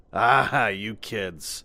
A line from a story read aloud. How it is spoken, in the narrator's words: Max said, laughing